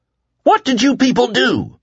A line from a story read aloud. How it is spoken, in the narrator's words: he shouted